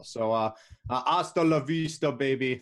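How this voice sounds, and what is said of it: Bad Arnold Schwarzenegger impression. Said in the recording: “probably the worst Arnold Schwarzenegger impression ever”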